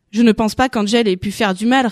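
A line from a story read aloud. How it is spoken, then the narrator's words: Plain. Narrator (French): répondit Ricardo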